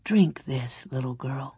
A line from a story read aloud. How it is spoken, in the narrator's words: a deep voice said softly